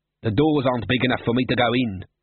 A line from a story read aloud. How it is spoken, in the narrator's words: snapped Glod